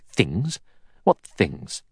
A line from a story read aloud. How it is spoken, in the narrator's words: Armstrong said sharply